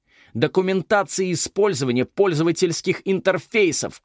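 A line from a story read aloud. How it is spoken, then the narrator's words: Uncontrolled shout. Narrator (Russian): крикнула, не сдержавшись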